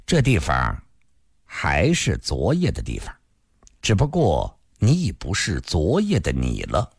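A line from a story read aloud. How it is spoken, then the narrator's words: Calm, indifferent. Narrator (Chinese): 一人淡淡地说道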